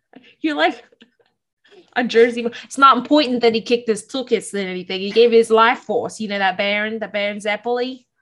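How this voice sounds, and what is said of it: Put-on accent drifting into Australian. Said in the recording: “it turned Australian really quickly ... any accent I do, it always turns Australian”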